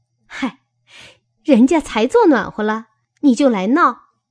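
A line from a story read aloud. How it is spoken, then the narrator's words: Sighing then laughing. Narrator (Chinese): 晴雯嗨了一声，笑道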